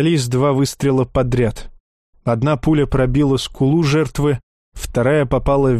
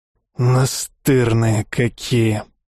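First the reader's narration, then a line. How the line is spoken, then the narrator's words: Hoarse. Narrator (Russian): хрипло проговорил Александр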